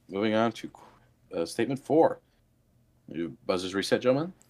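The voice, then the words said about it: Formal game show host voice. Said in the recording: “my best Alex Trebek impersonation”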